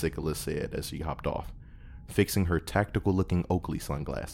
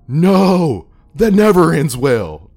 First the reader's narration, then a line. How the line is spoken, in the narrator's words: Todd screamed as he sprinted into the shop